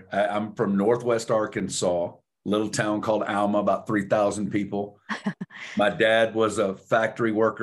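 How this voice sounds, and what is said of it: Southern American accent. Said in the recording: “you're going to hear a Southern accent”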